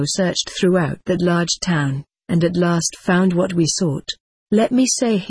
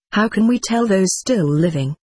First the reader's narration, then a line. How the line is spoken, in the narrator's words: replied